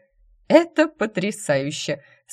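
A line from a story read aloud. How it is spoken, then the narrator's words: Speaking through laughter. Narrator (Russian): сквозь смех проговорила Джейд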